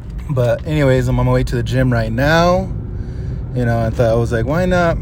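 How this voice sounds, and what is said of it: Voice rough and congested. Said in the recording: “my voice sounds kind of messed up right now. Been having these allergies”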